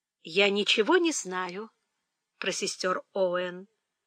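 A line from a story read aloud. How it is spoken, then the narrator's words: Calm. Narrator (Russian): спокойно сказала Фанни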